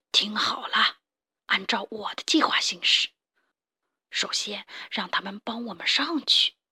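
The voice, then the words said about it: Quiet, hushed character voice. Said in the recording (Chinese): “普老大小声地对两个同伙说”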